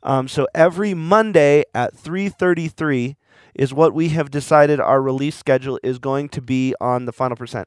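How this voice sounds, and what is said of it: Worn-out, trashed hoarse voice. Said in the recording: “my voice is going, I'm probably going to cough into the microphone ... my voice is pretty trashed”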